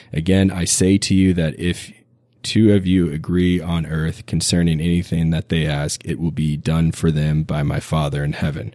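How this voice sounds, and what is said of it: Raspy, hoarse voice. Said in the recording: “my raspy voice and coughing fits”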